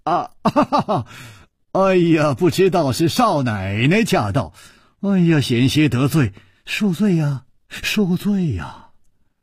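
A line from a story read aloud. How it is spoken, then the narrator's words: Smiling. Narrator (Chinese): 楚留香微笑地说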